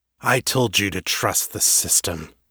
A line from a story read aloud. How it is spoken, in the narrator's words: said, his voice a low, menacing rumble